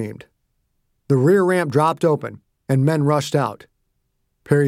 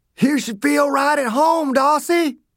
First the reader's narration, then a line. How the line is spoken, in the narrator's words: Dew shouted